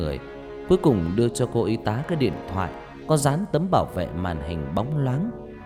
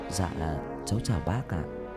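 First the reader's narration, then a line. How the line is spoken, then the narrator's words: Quiet voice. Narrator (Vietnamese): Tân nhỏ giọng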